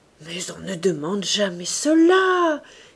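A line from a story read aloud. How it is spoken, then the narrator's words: Exclaimed. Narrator (French): s'écria-t-elle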